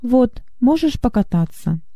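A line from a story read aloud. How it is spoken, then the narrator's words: Calm. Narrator (Russian): Гюнтер спокойно сказал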